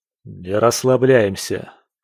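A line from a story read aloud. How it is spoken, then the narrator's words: Dry, curt. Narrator (Russian): сухо произнес он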